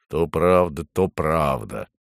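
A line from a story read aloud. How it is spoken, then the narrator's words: Grumbling bear. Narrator (Russian): проворчал медведь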